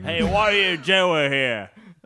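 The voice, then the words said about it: Bad put-on Australian accent. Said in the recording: “do the accent ... That's not bad ... It got worse ... let's just be completely obnoxious Australian guys”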